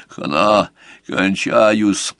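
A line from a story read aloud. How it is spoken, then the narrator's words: Wheezing rasp. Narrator (Russian): просипел тот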